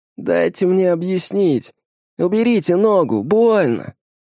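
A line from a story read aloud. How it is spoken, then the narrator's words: Whimpering. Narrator (Russian): скулит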